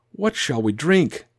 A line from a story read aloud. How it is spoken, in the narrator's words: he cried to Yahweh